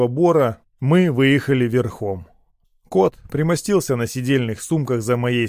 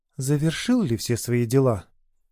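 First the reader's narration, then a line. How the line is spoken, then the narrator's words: Whispered into neck. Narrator (Russian): прошептала она мне в шею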